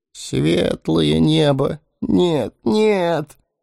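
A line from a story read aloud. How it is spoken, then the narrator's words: Merchant's moan. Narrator (Russian): простонал торговец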